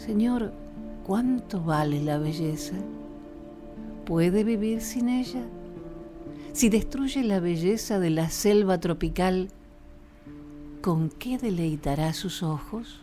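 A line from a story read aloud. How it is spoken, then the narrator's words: Deep lazy voice. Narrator (Spanish): le habló con voz profunda y perezosa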